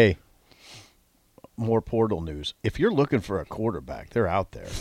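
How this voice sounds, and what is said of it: Usual voice. Nothing is said of it.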